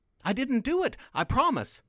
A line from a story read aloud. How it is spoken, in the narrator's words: Mandy Maynard pleaded